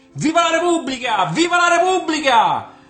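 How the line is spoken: Man's receding shout. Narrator (Italian): gridò allontanandosi l'uomo

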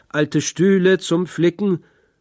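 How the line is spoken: Hawker's street cry. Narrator (German): als Hausierer rief

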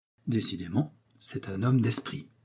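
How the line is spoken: Murmured. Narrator (French): murmura Athos

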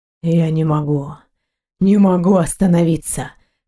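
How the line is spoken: Hoarse executioner reply. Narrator (Russian): хрипло ответил черный палач

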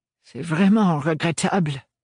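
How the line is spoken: Sighing. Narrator (French): soupira-t-il

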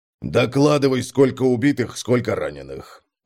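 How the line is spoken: Gloomy grumble. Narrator (Russian): Угрюмо пробурчал Конрад

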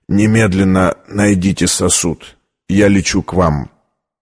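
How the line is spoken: Choked out, coughing, tearful. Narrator (Russian): Зайдясь в приступе кашля, он, задыхаясь и заливаясь слезами, выдавил

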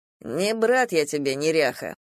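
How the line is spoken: Grumbling. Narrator (Russian): проворчал Давыдов

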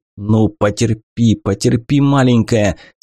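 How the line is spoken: Hissing through teeth. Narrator (Russian): сквозь зубы шипел Сашка

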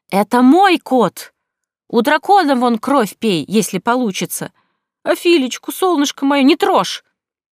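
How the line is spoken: Angry shouting. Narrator (Russian): кричала, забыв вообще все свои добрые и дружеские намерения

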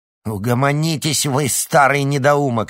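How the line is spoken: Sharp bark. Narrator (Russian): рявкнула Церцея

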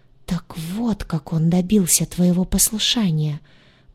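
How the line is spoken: Whispered. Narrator (Russian): прошептала она

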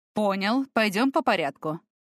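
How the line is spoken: Snorting. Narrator (Russian): хмыкнул Тамир

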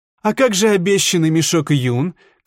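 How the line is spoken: Herbalist shouting after them. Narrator (Russian): крикнул им вслед травник

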